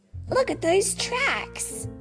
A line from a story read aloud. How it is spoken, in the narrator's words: Thumper said excitedly